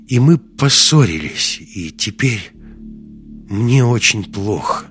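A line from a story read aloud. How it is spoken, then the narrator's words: Tired exhale. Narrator (Russian): устало выдохнула Маруся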